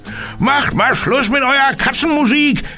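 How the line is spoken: Newspaper seller calling out. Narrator (German): rief der Zeitungsverkäufer den Gitarrenjungen zu

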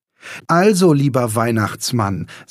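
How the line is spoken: Loud boy. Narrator (German): sagte der Junge so laut, dass seine Mutter ihn gut verstehen konnte

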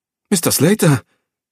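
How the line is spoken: Excited call. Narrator (German): rief er aufgeregt

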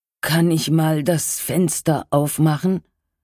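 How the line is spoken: Weak, tired question. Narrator (German): fragte er mit matter Stimme

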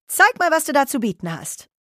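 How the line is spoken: Cheeky call. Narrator (German): rief er keck

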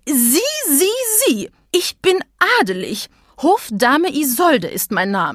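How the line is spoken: Lady roaring. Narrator (German): brüllte die Dame

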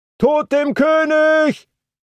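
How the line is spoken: Called again. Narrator (German): rief es wieder

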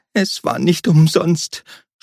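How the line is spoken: Sobbing. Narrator (German): schluchzte

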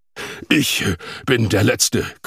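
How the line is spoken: Panting. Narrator (German): keuchte Jorgon

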